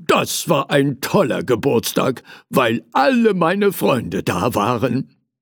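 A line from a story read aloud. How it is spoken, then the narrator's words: Calling out. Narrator (German): rief er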